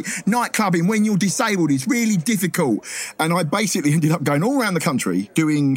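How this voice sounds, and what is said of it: Luton accent. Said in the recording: “obvious kind of Luton accent”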